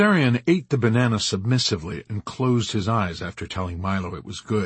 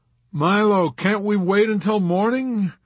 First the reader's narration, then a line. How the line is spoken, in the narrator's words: Yossarian pleaded